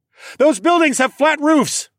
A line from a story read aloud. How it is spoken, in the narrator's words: I shouted into the device